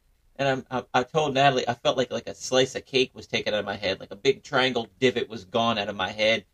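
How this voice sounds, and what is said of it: Usual voice. Nothing is said of it.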